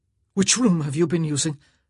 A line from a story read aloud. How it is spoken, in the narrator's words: he gasped